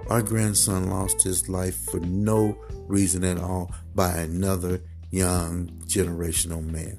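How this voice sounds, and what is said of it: Emotional, heavy-hearted voice. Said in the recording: “You can tell I'm a little emotional about this... my heart is heavy”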